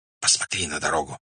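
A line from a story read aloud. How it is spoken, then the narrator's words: Whispered. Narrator (Russian): прошептал Арабша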